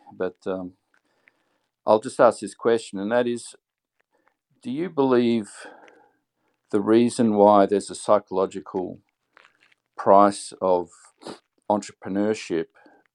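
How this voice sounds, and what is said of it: Tired-sounding voice. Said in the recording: “It's 2:27 a.m. So excuse me if I sound a bit tired”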